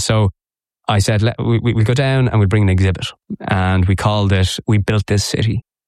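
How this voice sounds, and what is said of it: Dublin Irish accent. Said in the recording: “I'm a very brave man with this accent. ... I actually am one of those rare Dubliners.”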